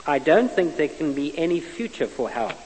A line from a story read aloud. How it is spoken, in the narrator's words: he says